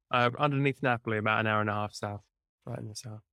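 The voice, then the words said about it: English accent. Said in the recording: “I'm English, as you can tell from my fantastic accent.”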